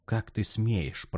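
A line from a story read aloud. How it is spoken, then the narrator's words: Whisper. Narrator (Russian): прошептала она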